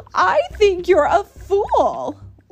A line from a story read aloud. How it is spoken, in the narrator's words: laughed the sour kangaroo